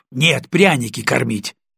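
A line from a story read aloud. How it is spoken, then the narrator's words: Snapped back. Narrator (Russian): огрызнулась Настя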